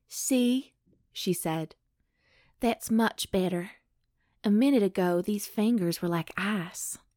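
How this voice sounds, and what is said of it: Southern twang like Jennifer Coolidge. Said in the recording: “It sounds like Jennifer Coolidge. ... she totally has kind of a southern twang. ... It is a little southerny.”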